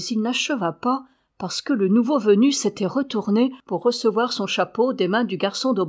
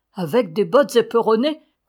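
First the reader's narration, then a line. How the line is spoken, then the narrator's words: Laughing. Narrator (French): commença Mathurin en riant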